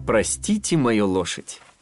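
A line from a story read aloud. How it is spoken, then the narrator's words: Laughing. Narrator (Russian): хохотнул Феб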